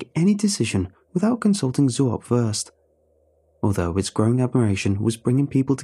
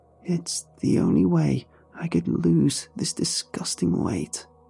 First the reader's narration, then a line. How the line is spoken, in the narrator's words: Sharon weakly muttered